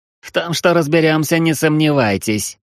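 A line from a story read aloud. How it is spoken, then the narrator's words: Smug conclusion. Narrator (Russian): самодовольно заключил детектив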